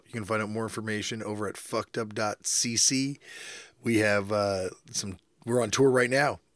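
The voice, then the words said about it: Strained voice. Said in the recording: “my voice is strained”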